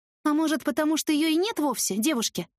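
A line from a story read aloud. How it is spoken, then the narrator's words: Snort. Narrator (Russian): хмыкнула я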